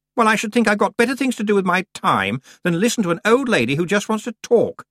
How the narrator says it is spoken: said Anagramma indignantly

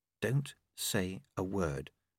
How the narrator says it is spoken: she said quietly

